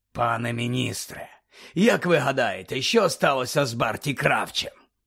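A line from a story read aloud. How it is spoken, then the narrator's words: Growling. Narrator (Ukrainian): прогарчав Муді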